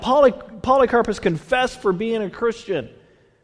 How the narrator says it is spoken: the herald cries out

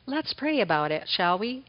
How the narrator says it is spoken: the warrior gently says

